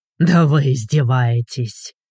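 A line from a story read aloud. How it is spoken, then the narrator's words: Growling. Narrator (Russian): прорычал Игорь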